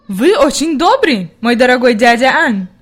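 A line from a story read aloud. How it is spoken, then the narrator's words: Grandmother exclaiming. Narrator (Russian): воскликнула бабушка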